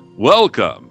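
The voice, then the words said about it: Stadium announcer voice. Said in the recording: “I'm trying to put on my DJ voice ... Your radio pro voice? ... That's my stadium announcer voice”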